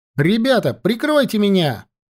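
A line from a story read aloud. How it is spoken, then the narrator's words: Shouted. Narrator (Russian): крикнул Лёшка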